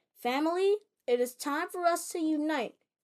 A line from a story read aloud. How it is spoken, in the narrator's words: she exclaimed